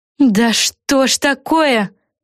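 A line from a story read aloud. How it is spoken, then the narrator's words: Wail. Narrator (Russian): взвыла Флафанора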